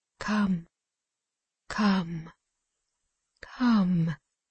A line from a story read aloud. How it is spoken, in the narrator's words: A voice said three times in a low, fearful whisper